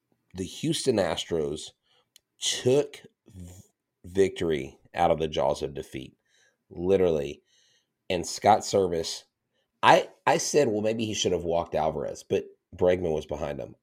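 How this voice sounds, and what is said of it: Strained, worn-out voice. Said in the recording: “my voice is still dying... I'm probably going to go drink some hot tea after this because I've been talking all day in class”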